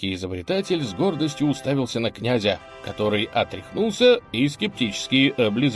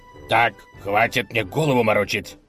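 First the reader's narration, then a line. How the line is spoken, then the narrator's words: Angry bark. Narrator (Russian): рявкнул разгневанный князь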